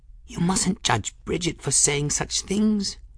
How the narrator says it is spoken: Folly murmured

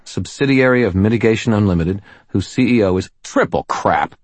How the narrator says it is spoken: I spat

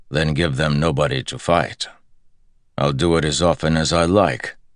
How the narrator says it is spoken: Perrin said gruffly

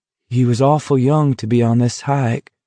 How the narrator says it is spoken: Baker said sadly

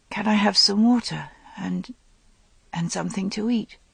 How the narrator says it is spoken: she said shakily

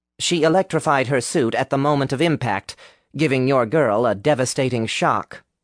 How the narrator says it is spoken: Will said, his voice even, but his tone not entirely hiding the distress he felt in his own stomach

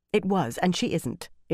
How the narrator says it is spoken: Elaine said impatiently

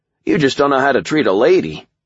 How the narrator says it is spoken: I said cheerfully

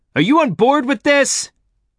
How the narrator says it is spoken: I shouted

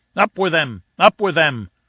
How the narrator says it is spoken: cried 100 voices

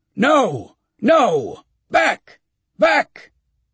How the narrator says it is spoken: shouting

